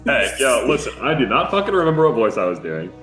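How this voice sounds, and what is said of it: Bro-y character voice. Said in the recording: “There it is, that's it. ... You were a lot more bro-y.”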